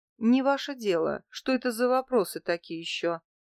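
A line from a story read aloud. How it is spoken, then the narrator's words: Menacing question. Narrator (Russian): грозно спросила я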